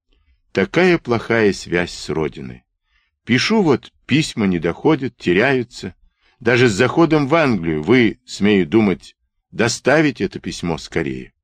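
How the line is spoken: Sad, dejected. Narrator (Russian): Печально приуныв, штабс-капитан сказал

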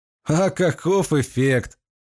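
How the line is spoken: Demon laughing. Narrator (Russian): рассмеялся демон

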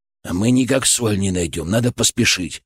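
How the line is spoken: Grumbled. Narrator (Russian): Буркнул Федор

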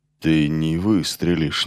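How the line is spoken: Uncertain. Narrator (Russian): неуверенно сказал Ассон

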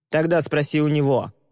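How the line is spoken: Roared. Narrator (Russian): проревел Боди

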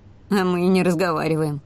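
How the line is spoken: Scoffing. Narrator (Russian): хмыкнул

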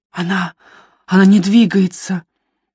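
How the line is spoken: Muffled, holding back sobs. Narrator (Russian): Он прижимал к рту рубашку, словно стараясь удержать рыдание

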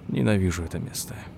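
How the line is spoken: Grumbling mutter. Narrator (Russian): буркнул Ричард

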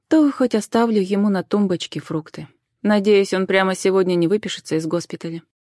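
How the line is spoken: Sigh. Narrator (Russian): вздохнула Джен

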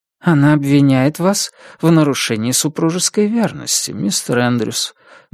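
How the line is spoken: Gentle. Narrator (Russian): мягко проговорил мистер Гарнетт

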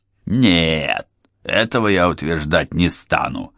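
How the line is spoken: Rough, blunt. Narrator (Russian): грубо объявил Хью Карни

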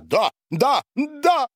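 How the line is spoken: Sudden yell, then laughter. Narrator (Russian): завопил вдруг Борис и расхохотался

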